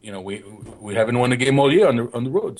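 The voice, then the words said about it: Weak imitation of another person's voice. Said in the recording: “that was my poor Thierry Henry impression ... I didn't really try”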